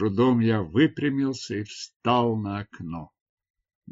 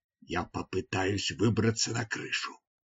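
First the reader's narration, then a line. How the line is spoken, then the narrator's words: Whispering. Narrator (Russian): я прошептал Нур-Ану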